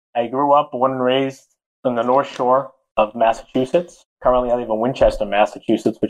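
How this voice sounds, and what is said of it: Boston accent. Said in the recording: “I'm sure you can tell from my accent. I'm from Boston. ... I was going to say the South, but no.”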